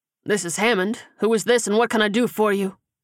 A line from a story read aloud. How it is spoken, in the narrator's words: he asked gruffly